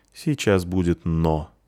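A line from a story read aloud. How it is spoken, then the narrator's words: Sad, smiling. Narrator (Russian): грустно улыбнулся Полчик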